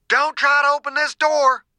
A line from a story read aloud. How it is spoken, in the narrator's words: Dew shouted